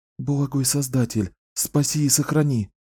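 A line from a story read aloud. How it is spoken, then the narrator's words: Whisper. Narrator (Russian): прошептала она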